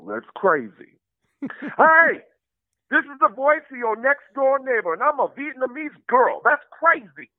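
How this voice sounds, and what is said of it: Put-on Bronx accent. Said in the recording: “an accent from the Bronx... Everybody in the Bronx talk like this, whether you black or white, male or female.”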